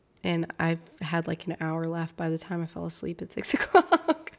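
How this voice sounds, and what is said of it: Raspy voice. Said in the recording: “raspy voice”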